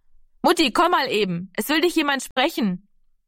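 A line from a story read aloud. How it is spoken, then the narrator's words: Calling from the doorway. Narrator (German): rief Heidemarie von der Hoftür aus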